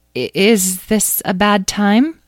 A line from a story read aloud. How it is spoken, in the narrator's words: Despite his tears, laughed joyfully